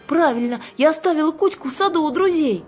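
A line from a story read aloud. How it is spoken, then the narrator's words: Exclaiming. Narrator (Russian): воскликнула Кира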